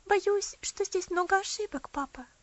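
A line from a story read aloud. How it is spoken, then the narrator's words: Timid. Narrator (Russian): робко произнесла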